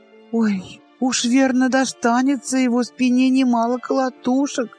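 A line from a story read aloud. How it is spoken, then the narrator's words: Sighed. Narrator (Russian): вздохнула Луиза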